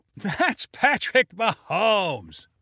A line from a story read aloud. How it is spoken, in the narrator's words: yelled someone in the crowd with a laugh